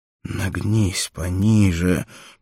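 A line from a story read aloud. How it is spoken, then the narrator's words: Wheezy hoarse voice. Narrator (Russian): просипел Топал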